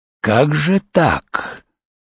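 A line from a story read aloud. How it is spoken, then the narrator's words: Distinct hiss. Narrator (Russian): прошипел он вполне, впрочем, явственно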